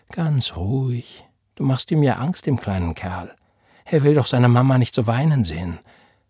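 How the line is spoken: Gentle. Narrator (German): sagte Florence sanft

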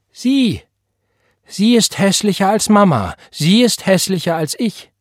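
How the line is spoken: Called out. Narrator (German): rief

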